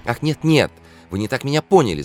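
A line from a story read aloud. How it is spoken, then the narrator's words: Flustered babbling. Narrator (Russian): залепетал переконфуженный Свежевский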